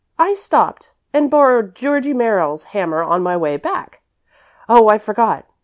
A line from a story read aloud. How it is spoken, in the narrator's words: continued Priscilla hastily